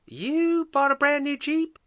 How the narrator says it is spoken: Sally exclaimed

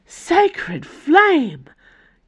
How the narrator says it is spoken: gasped Nimue

